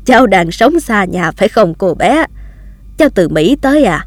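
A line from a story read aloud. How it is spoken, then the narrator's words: Old man, laughing. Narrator (Vietnamese): Ông cụ bật cười và nói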